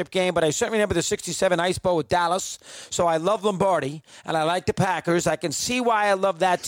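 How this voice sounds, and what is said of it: Thick New York accent. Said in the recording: “thick New York accent, unique voice. No one has a voice like you”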